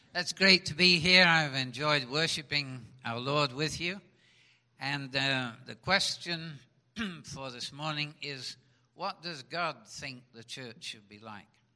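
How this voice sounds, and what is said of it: Speaks with a noticeable accent. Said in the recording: “he's got an accent”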